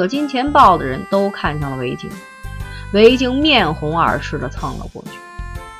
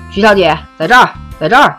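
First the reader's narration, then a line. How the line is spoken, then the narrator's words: Shouting. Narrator (Chinese): 大喊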